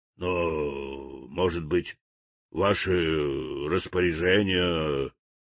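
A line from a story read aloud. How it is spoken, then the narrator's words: Frightened mumbling. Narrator (Russian): забормотал испуганный смотритель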